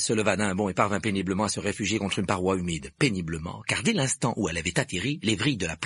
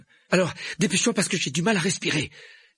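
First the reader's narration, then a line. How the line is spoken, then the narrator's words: Breathless, chest constricted. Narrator (French): dit Harry d'une voix haletante tandis que la plante lui étreignait la poitrine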